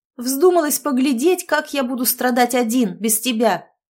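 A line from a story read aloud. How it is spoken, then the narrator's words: Shouting. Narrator (Russian): Владимир Константинович уже кричал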